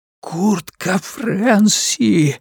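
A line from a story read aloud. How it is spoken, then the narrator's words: Hissing whisper, then shout. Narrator (Russian): свистящий шепот и тут же крик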